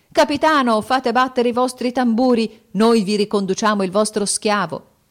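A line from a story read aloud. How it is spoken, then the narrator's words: Festive group shout. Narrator (Italian): Colaggiunti gridarono festosamente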